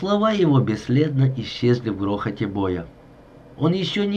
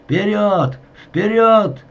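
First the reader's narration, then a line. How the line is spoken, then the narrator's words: Shouting. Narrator (Russian): кричал лейтенант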